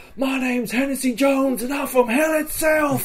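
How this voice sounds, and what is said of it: Yelling. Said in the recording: “I'm yelling,”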